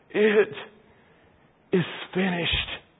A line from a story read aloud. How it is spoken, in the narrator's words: with a gasp, He says